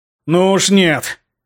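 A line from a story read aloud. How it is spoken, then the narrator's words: Growled. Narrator (Russian): зарычал я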